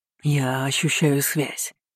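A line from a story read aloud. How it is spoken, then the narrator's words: Hoarse statement. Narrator (Russian): хрипло сообщил Ахнет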